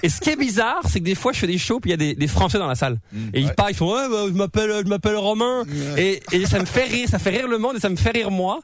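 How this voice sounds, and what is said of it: Hybrid French and Québécois accent. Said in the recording (French): “je vous parle, j'ai un accent français pour vous ... pour les Français, j'ai plus un accent français ... J'ai un accent mi-français ... J'ai un accent entre les deux”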